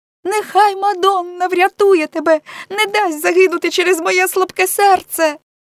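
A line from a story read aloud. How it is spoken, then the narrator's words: Girl's cry. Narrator (Ukrainian): скрикнула дівчина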